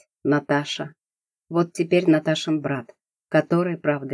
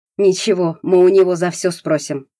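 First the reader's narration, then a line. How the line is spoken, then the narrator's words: Spoken through clenched teeth. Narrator (Russian): процедил Савичев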